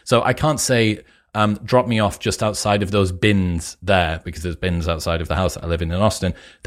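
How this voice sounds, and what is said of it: Northern English Teesside accent. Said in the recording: “I would say that it's a twang of Northern... will detect a bit of Teesside in there rather than Geordie... People in the UK would probably detect that I was from somewhere up north”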